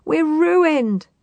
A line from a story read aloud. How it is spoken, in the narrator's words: sobbed Mrs